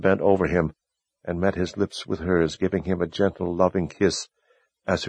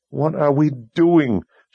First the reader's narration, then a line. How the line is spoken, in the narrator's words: she cried